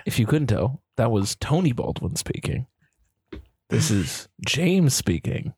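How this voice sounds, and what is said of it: Put-on radio voice. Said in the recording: “I think I got a pretty good differentiated radio voice. ... I put it on. ... You got to have a radio voice.”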